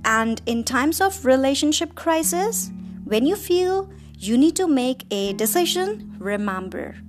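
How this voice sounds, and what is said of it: Natural non-native English accent. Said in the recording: “this is my original accent and I don't use fake accent”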